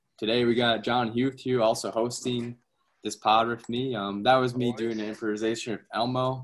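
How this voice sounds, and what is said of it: Slightly hoarse voice. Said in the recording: “My voice is a bit hoarse right now”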